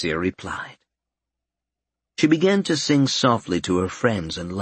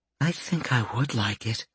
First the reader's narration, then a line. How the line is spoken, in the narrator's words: Fluffball whispered